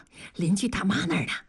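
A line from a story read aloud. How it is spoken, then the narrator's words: Out of breath. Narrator (Chinese): 同志已经气喘吁吁了，说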